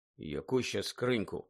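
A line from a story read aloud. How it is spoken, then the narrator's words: Muttered. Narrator (Ukrainian): пробурмотів Гаррі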